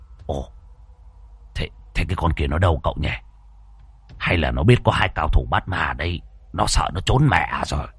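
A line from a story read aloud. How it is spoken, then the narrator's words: Muttering. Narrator (Vietnamese): Lão lẩm bẩm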